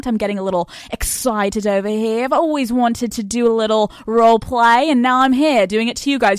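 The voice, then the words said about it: Slight put-on British accent. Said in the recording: “I apologize if I'm talking in a little British accent.”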